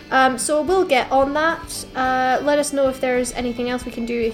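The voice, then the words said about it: Polite formal customer service voice. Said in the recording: “It sounds like a really official email that you're sending. ... I just went into my customer service voice.”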